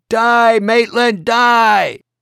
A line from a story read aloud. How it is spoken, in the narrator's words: someone began shouting